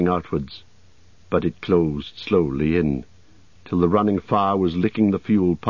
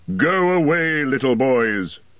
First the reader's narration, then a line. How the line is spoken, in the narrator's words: shouted Gandalf in answer